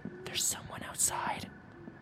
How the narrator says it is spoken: whispered

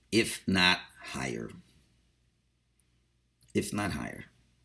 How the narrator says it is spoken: So the Litvak would add quietly

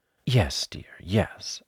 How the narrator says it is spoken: said Kanga soothingly, and imitating Piglet's voice too

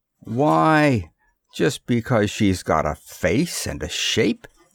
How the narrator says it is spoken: the fat man sneered

